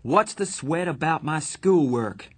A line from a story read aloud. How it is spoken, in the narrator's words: I finally shouted